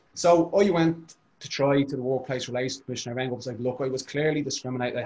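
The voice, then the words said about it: Dublin accent. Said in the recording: “they were joking about that because of my accent... because of me and our City Dublin accent”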